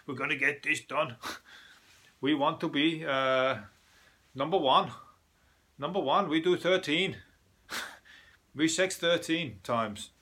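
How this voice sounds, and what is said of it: Mock German accent. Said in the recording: “my German impression.”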